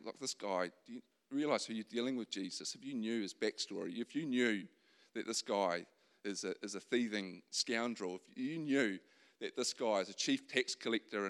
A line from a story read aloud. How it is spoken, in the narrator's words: mutterings of the crowd saying